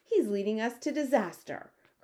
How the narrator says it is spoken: cried the head of the Air Force

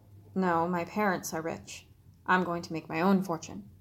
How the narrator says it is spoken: He felt his ears redden as he mumbled

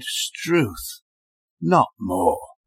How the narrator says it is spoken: Magnus's shoulders sagged, his head dropped, and he sighed

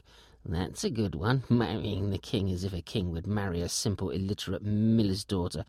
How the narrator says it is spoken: muttering

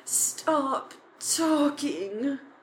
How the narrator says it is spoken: Harry pleaded loudly

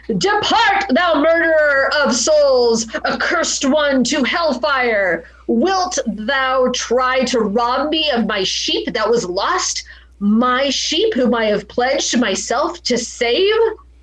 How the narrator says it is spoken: Margareta to scream out

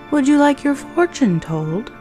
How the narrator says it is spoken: His voice was silky and warm

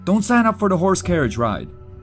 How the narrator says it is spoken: yelled in English

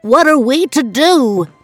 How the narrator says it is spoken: the fancy dressmaker cried as he paced the floor of his empty salon, tearing at his hair

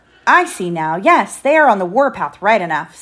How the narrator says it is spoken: said John

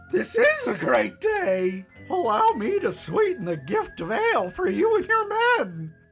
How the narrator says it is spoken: Barty exclaimed

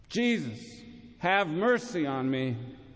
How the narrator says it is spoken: blind Bartimaeus, crying out more loudly

